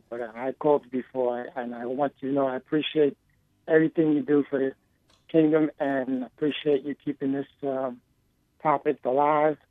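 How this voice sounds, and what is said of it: Voice affected by a cold. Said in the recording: “Excuse my voice. I'm just getting a little cold”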